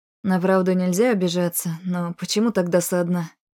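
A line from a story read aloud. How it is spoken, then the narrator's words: Wry snort. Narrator (Russian): Хмыкнул Дэвин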